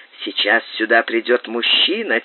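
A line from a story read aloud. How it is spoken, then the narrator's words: Quiet. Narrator (Russian): тихо сказал он ей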